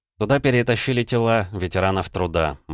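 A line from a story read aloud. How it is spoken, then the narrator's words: Grim joke. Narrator (Russian): мрачно пошутил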